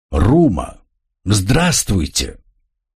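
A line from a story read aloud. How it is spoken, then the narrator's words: Joyful speech. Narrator (Russian): радостно что-то проговорив, Тро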